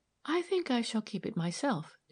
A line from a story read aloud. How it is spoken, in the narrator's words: she said quietly